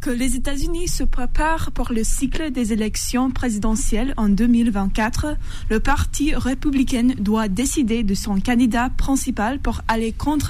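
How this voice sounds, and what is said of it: American accent speaking French. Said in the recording (French): “L'accent n'est pas parti encore, il est toujours là. ... c'est un Américain aussi”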